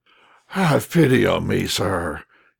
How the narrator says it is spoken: exclaimed, almost sobbing

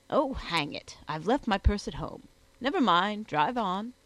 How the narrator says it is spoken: said he to his host, exclaiming to the man

